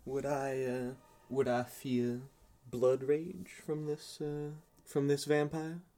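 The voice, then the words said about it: Put-on Southern US accent. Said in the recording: “I've been doing a southern accent, but I'm supposed to be English.”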